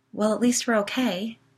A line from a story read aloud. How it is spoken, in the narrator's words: Holly began, laughing shakily